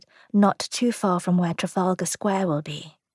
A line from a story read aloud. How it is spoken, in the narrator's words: Tom whispered